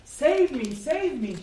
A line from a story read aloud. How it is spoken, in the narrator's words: cried